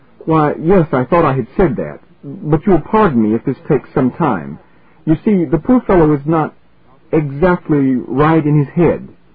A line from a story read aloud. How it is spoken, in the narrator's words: hurried on furiously